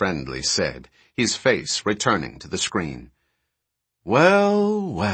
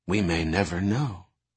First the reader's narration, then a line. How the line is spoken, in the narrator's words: Irmgard murmured